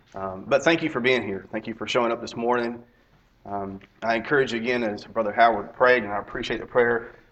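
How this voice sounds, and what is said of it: Raspy, strained voice. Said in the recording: “I sound pretty bad, and at times my voice comes and goes ... It's probably going to be a little raspy, a little ugly at times”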